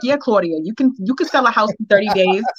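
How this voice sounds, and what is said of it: Put-on New York accent. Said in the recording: “she's from New York, so I'm gonna do her New York accent”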